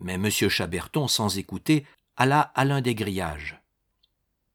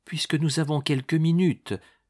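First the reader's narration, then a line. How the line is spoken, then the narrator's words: Pleading. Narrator (French): dit le client suppliant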